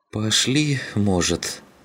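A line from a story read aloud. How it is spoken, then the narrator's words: Groaning. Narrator (Russian): простонал Клим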